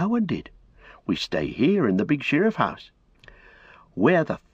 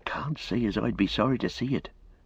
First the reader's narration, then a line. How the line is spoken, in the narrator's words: said Robin, lowering his voice